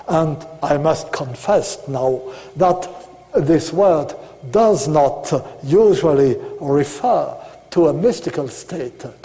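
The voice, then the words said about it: Strong non-native English accent. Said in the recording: “not only my English is terrible, not only my accent is preposterous”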